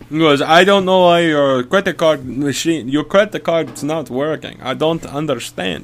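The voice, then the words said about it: Deliberately bad Indian accent. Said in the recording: “it's a really bad Indian accent, I'm sorry. It was, he was from Mumbai, India.”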